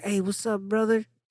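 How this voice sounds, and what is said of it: Put-on Chicano accent. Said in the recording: “Chicano, little Chicano accent.”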